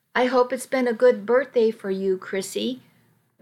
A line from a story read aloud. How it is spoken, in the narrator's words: Martin said